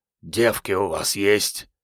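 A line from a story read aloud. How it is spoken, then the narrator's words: Hopeful hoarse wheeze. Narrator (Russian): с надежды прохрипел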